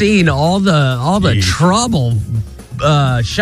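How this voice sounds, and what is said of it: Usual voice. Nothing is said of it.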